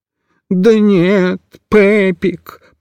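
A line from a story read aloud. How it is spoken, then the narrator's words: Moan. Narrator (Russian): простонал Микиш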